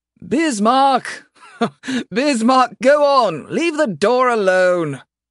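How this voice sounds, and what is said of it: Raised, shouting voice. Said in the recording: “I raise my voice”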